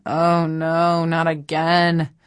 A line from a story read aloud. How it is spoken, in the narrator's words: your non-surfer friends moan